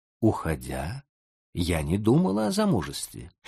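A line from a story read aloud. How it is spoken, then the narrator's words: Quiet. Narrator (Russian): Нетти тихо сказала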